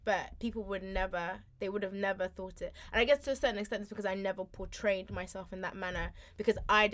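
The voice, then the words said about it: Posh-sounding London accent. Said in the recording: “because of my accent, that I used to live in a really nice house in a really nice part of London”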